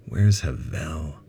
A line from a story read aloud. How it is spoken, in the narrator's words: Ben groaned, struggling to get up in the heavy gravity